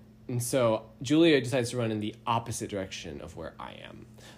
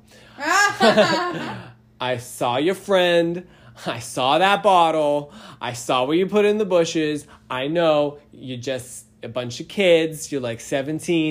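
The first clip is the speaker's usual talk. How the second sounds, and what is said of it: Strong Boston accent imitation. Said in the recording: “I'm gonna butcher the accent. But such a strong Boston accent.”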